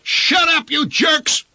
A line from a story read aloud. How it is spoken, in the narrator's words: he yelled at the line of cars